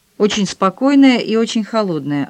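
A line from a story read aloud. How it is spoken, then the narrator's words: Plain. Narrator (Russian): ответила Франсуаза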